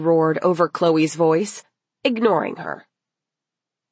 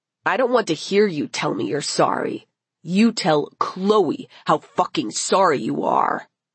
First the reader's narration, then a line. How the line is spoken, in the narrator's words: he growled at them